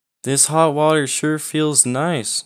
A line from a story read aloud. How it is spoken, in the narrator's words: Matt said